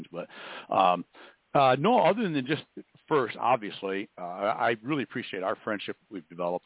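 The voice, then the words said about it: Congested voice, sounds like a cold. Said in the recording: “I've been doing this cold thing for like, I've been trying to suck on these little lozenges and not sound like I'm sucking on a lozenge”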